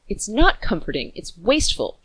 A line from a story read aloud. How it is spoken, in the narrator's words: snapped